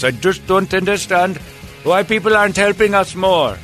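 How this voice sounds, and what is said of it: Put-on Indian accent. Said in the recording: “hate to do the accent because I know how offensive that could be, but I'm doing it.”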